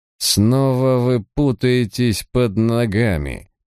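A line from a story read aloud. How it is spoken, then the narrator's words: Through gritted teeth. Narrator (Russian): процедил Дерм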